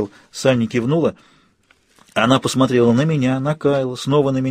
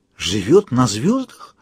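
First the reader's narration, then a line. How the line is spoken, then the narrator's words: Whisper. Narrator (Russian): прошептала она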